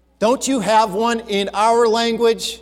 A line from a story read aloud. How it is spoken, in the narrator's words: he asked